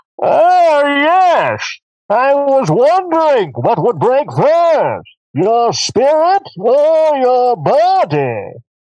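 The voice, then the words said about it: Imitates Bane's voice. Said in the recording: “that Bane impression”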